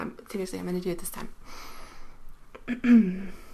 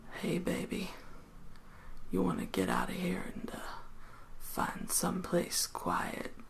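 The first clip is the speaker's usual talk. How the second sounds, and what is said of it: Attempted deep manly voice. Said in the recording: “My man voice, come on. ... my voice isn't manly”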